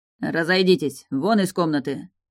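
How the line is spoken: Barked. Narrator (Russian): рявкнул на них Доминго

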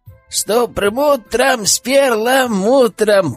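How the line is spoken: Girl shouting. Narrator (Russian): прокричала младшая

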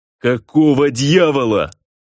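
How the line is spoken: Yelling. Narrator (Russian): завопил Босхит, хватаясь за руку, повисшую плетью

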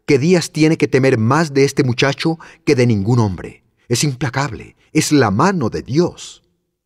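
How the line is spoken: Exclaiming. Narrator (Spanish): exclamó Vera

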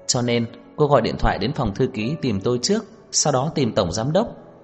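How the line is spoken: Surprised, smiling. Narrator (Vietnamese): Đông Anh hơi sửng sốt, mỉm cười

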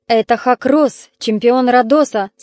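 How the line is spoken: Plain. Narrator (Russian): сказал Калиадес

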